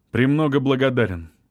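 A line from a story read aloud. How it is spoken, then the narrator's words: Curt, dry retort. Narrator (Russian): сухо бросил Павлов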